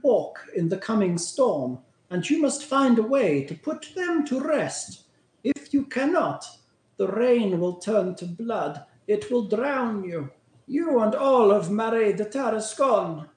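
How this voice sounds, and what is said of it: Speaks with a put-on accent. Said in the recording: “my accent”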